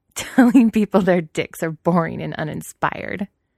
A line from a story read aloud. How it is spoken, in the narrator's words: Weiying continues, laughing now